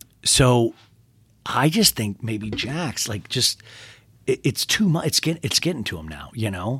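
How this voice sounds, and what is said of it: Usual voice. Nothing is said of it.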